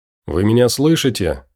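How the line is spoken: Plain. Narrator (Russian): спросил Виктор

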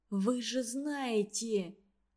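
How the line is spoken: Whisper. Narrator (Russian): прошептал он

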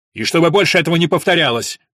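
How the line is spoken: Barked. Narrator (Russian): рявкнул он

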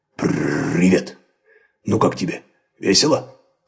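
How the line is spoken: Grumbling. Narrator (Russian): проворчал

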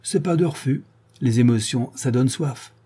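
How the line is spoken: Plain. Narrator (French): répondit

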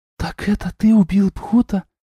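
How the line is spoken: Whisper. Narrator (Russian): прошептала Дуняша

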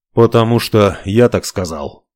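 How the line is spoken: Tired. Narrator (Russian): устало произнес он

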